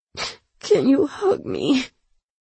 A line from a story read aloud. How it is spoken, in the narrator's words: She choked out the words, her chest jerking as her lip quivered uncontrollably